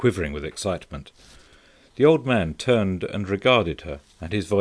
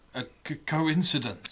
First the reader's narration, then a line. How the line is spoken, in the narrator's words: stammered the old man